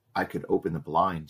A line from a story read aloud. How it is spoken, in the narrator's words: she whispered